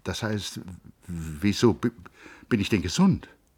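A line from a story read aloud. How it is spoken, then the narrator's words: Stammering. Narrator (German): Hans Castorp stotterte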